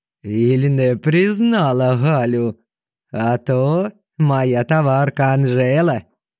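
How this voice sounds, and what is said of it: Singsong Ukrainian-accented Russian. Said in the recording (Russian): “Ее певучий украинский говорок”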